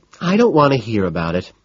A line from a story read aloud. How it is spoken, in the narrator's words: she sighs, cutting me off